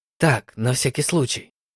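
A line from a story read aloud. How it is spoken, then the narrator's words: Old man muttering. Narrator (Russian): пробормотал старик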